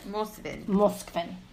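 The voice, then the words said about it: Attempted Russian accent. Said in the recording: “I'm trying to say it like a Russian accent.”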